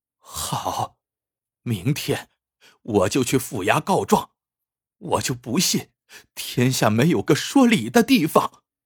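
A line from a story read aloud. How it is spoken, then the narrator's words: Grief-stricken, through gritted teeth. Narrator (Chinese): 润娘难抑悲愤，咬牙切齿说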